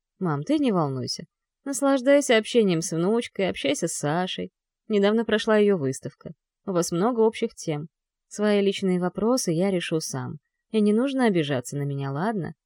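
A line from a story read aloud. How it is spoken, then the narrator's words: Calm male voice. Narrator (Russian): Спокойно говорит мужчина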